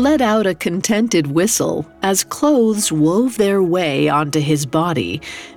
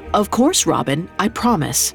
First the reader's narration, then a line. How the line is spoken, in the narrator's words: quickly added